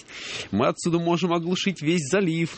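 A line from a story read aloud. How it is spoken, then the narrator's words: Pleased giggle. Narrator (Russian): довольно хихикнул он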